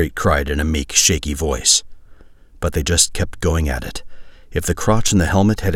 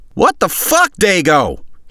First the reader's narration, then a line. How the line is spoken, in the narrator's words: yelled